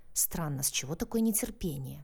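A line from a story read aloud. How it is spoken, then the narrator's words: Muttered. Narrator (Russian): пробормотал Анджей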